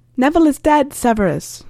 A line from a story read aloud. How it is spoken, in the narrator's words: Harry called out